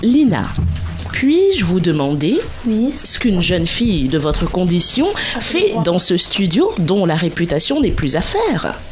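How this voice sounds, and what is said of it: Put-on posh bourgeois French accent. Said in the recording (French): “j'ai fait un accent de bourgeois”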